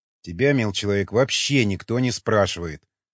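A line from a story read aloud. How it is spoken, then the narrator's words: Sharp commander. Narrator (Russian): резко ответил командир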